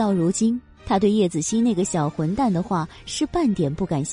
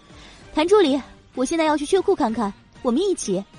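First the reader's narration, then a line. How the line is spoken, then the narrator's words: Calling out. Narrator (Chinese): 叶朵朵朝他喊了一声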